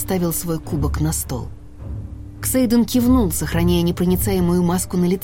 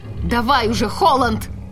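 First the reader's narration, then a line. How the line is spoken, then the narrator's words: Sharp shout. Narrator (Russian): прикрикнуть на наследника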